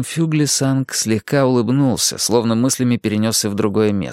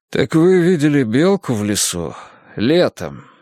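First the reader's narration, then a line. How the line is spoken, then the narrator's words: Impatient sigh. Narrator (Russian): вздохнул Мунк, почувствовав, что начинает терять терпение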